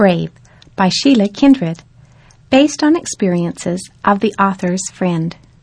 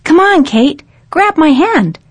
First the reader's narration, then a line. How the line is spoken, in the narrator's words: Ethan called out to his little sister